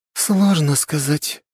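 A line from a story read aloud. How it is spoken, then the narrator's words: Uncertain reply. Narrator (Russian): неуверенно ответила Октавия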